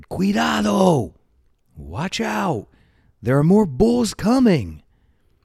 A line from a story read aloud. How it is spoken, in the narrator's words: shouted